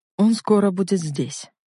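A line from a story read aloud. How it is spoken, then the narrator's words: Calm. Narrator (Russian): спокойно произнес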